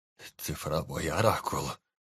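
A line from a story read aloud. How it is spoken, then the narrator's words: Hoarse, trembling. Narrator (Russian): хрипло произнес Анджей, которого била мелкая дрожь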